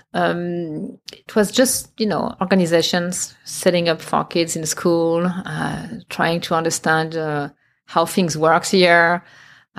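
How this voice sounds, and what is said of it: Heavy non-native English accent. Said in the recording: “I have a heavy accent, but back then was even worse”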